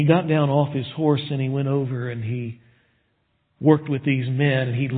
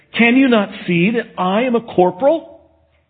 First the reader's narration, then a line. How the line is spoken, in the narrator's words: he indignantly looked up at the man on the horseback and he said